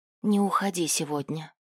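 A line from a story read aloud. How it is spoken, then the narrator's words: Quiet plea. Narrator (Russian): негромко попросила Риса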